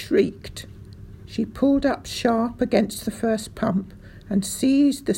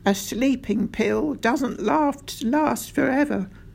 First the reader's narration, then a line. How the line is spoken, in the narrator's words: Doc Spencer said, shaking his head sadly